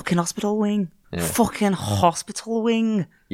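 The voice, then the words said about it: Attempted Scouse accent. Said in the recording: “You got to put a hard G on the end, I think. ... I don't think you have to do the H on an H. ... trying to do a Scouse accent.”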